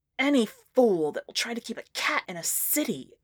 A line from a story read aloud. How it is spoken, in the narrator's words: muttered angrily